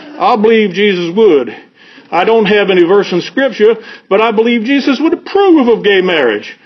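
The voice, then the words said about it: Jimmy Carter impression. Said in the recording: “I wish I could do a Carter accent ... How was my Carter? Was it okay?”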